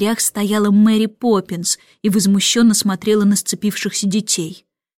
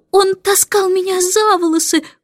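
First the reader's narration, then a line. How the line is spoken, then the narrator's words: Muffled sobbing. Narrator (Russian): всхлипывала Джейн, закрыв лицо руками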